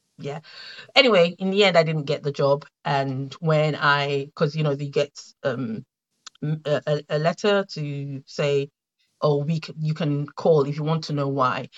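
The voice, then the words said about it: Slight Nigerian accent. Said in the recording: “I have a bit of a Nigerian accent”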